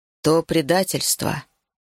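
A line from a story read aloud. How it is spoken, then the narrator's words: Solemn announcement. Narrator (Russian): торжественно объявил Ишка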